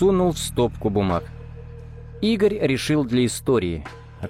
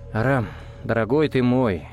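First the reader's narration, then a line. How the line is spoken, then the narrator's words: Sighing. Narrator (Russian): вздохнул Малецкий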